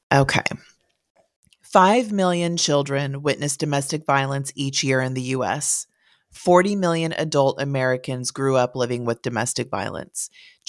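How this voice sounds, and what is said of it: Scratchy, hoarse voice. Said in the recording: “my voice is a little scratchy this morning ... maybe a change in the weather ... I sound a little hoarse”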